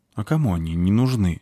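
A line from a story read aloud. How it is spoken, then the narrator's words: Sigh. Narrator (Russian): вздохнула спичка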